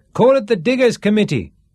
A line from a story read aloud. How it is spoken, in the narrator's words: shouted someone